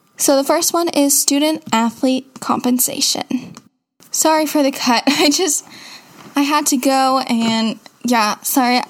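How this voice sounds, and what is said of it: Sore, slightly raspy voice. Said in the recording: “my voice is very sore from talking for a long time straight. So if it's a little bit raspier”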